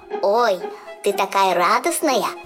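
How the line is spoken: Squeaky voice. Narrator (Russian): пропищал Жак

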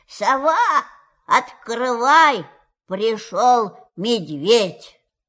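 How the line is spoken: Very loud shout. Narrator (Russian): крикнул очень громким голосом

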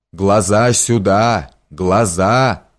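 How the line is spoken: Hollow menacing exclamation. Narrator (Russian): воскликнул Капелиус глухим и грозным голосом

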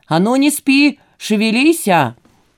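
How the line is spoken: Cheerful shout. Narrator (Russian): крикнул весело

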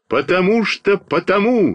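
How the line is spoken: Shout. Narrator (Russian): закричал я

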